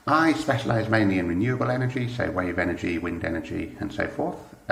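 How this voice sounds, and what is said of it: British accent. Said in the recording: “as you can probably tell from the accent, I'm British”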